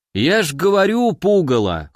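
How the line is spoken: Snorting. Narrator (Russian): хмыкнул чудак

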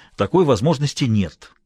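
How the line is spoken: Almost angry interruption. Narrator (Russian): почти сердито перебил Бассет

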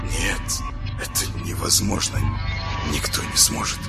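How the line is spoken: Silently mouthed whisper. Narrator (Russian): прошептал он одними губами

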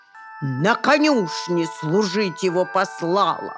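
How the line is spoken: Old woman's sharp shout. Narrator (Russian): На него прикрикнула старуха

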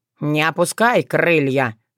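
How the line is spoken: Mocking snort. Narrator (Russian): насмешливо фыркнул Тявин

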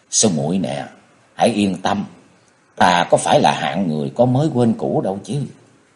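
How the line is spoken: Moved gentle comforting voice. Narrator (Vietnamese): Chàng rất cảm động, khẽ bóp tay nàng một cái rồi an ủi rằng

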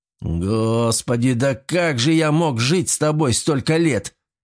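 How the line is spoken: Nearly growling. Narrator (Russian): чуть ли не прорычал Павел

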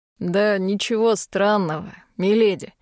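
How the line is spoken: Snorting. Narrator (Russian): хмыкнул Бернар

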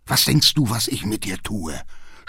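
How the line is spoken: Groaning with rage. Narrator (German): stöhnt fast sinnlos vor Zorn

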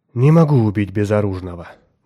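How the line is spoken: Sighing. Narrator (Russian): вздохнул он

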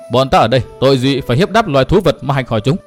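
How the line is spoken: Angry question. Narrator (Vietnamese): Nguyên Bình giận dữ hỏi

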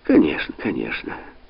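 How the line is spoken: Annoyed mutter. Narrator (Russian): досадливо пробормотала Инесс Табуссо

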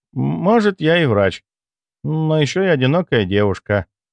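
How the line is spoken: Sighed. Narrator (Russian): вздохнула Морозова и тут же улыбнулась

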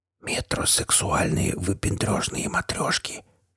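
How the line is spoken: Whispered comment. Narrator (Russian): шепотом прокомментировал я

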